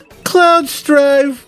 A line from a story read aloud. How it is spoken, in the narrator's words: sighed